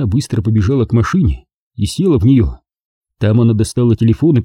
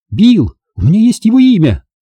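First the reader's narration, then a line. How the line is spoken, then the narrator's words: Nearly shouted. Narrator (Russian): почти выкрикнула она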